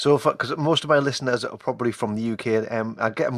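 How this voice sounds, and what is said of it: Usual voice. Nothing is said of it.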